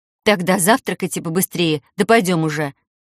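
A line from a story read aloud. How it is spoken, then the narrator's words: Angry bark. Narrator (Russian): рявкнула сердито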